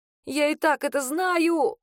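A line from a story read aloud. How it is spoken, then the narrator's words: Hoarse rasp. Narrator (Russian): прохрипела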